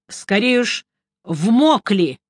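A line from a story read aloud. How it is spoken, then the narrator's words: Grumble. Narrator (Russian): буркнул я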